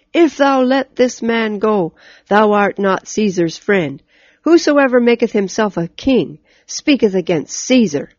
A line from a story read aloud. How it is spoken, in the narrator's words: the Jews cried out